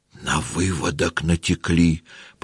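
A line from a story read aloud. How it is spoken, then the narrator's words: Whispered. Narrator (Russian): прошептал он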